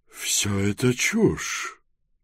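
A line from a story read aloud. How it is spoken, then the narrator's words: Angry, through clenched teeth. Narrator (Russian): сердито нахмурившись, процедила сквозь зубы министр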